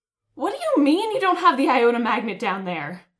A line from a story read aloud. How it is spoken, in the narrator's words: Mike shouted through the intercom